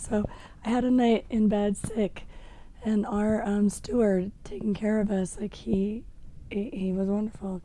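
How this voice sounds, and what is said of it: Hoarse, nearly lost voice. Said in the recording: “I don't know if you can tell, my voice is gone”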